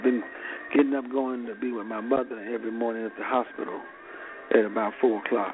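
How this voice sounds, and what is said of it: Tired-sounding voice. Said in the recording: “I'm a little tired, as you can tell from my voice.”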